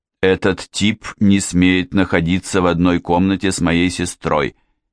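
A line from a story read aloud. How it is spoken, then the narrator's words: Angry declaration. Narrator (Russian): сердито заявил он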